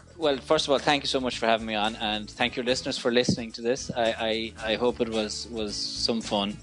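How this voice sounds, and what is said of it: Irish accent. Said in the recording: “it's an Irish accent. It's a different accent.”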